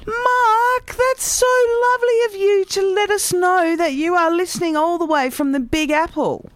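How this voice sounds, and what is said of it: Australian accent. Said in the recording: “a good old-fashioned Aussie accent”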